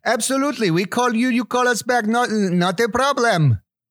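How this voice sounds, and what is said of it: Ambiguous mixed foreign accent, Indian-Russian. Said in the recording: “as you can tell from my accent, it's fairly ambiguous ... I heard some Indian and then some Russian and then, Borat, I think, for a moment”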